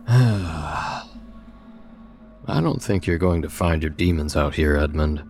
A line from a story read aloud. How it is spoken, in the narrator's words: I told him with a theatrical sigh